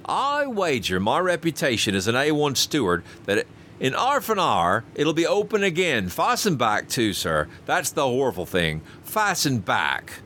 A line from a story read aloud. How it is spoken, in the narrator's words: continued Robert triumphantly